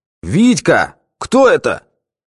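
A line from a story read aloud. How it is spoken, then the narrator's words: Commanding shout. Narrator (Russian): начальственно крикнул толстяк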